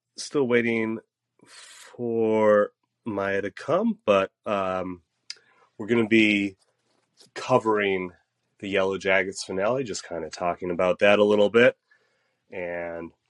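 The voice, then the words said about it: Congested, stuffed-up, raspy voice. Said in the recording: “my voice is slightly congested and stuffed up ... I'm going to be a little raspier than usual”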